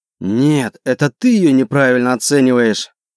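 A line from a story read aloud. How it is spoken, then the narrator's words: Growled. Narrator (Russian): прорычал Арбентус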